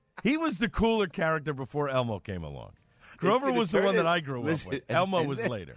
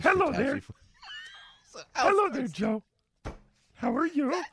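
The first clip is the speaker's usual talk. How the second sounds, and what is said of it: Grover impression from Sesame Street. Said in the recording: “That is a great Grover impression.”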